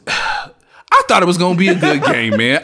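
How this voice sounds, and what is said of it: Imitates another person's voice. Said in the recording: “Here's my impression of Dante”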